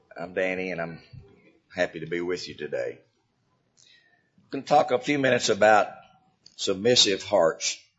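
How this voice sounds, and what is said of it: Hoarse voice. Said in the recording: “my voice is a little hoarse ... I'm a little bit hoarse this morning”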